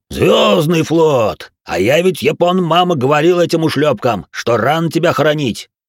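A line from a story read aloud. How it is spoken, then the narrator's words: Cheerful yelling. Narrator (Russian): весело орал Толя Грохот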